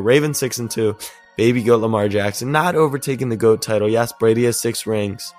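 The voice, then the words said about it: Voice sounds worn or off. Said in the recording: “sorry for my voice tonight”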